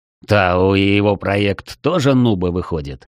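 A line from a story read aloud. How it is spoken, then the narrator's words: Smirking snort. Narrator (Russian): хмыкнул Комтур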